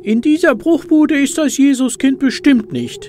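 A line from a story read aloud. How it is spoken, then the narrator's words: Squeaky mouse voice. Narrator (German): quiekt die Maus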